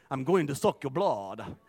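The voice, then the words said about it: Dracula-style vampire accent. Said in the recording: “The accent.”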